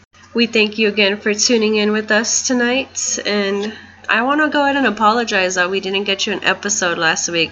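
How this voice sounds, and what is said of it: Congested, sick-sounding voice. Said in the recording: “I have a cold.”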